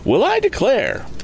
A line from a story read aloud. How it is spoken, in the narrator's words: exclaimed Mrs